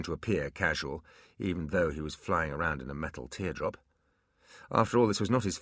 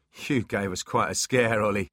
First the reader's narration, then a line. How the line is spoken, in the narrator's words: laughed Foley